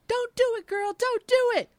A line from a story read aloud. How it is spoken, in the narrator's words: Tamara and I yelling at her